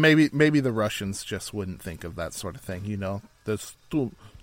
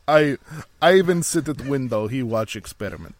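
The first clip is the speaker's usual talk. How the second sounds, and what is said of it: Bad put-on Russian accent. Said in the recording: “That was a really, really bad Russian accent. Mine wasn't good”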